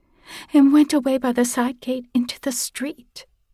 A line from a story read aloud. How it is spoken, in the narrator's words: cried suddenly